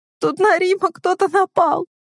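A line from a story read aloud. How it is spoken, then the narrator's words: Whining. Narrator (Russian): Скулит Настя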